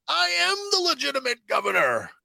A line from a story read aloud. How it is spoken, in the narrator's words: he shouts